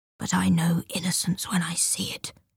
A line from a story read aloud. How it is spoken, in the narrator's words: he whispers